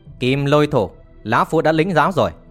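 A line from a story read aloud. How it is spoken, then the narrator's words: Old man snapping angrily. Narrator (Vietnamese): Lão nhân mặt đỏ bỗng gắt lên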